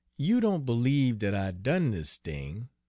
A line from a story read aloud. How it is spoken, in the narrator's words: he asked dreamily